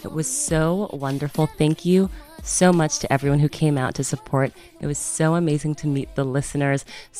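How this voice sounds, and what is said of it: Hoarse, slightly sore voice. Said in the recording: “My voice is a little bit hoarse, a little sore, because I just finished the live event yesterday.”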